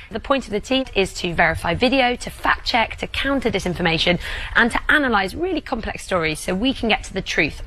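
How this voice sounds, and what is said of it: Fancy British accent. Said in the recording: “the fancy accent, which I do actually, it's such an advantage, British accent”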